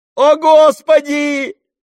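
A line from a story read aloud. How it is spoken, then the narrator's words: Yelling. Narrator (Russian): заорал он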